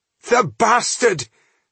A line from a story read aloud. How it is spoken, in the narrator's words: spluttered Manor